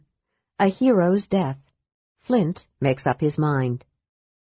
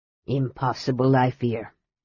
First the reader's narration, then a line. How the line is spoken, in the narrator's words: Hornfell returned gravely